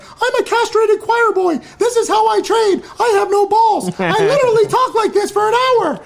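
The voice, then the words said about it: High-pitched squeaky cartoonish voice. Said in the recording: “talk in a high pitched voice ... Sounds like Mickey Mouse”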